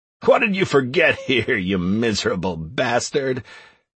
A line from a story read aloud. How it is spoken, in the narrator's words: The maladjusted player continued to have a laugh